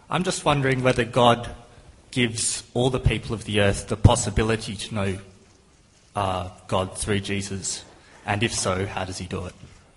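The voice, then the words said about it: Australian accent. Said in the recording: “I just love that accent. Is that New Zealand, or where are you from, South Africa? ... I'm from Australia.”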